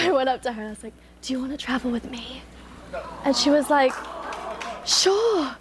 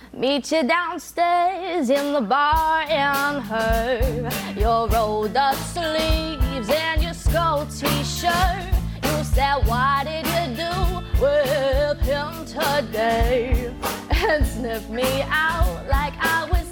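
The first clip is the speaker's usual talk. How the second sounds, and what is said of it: Sung imitation of another person's voice. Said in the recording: “pretty good Amy Winehouse impression”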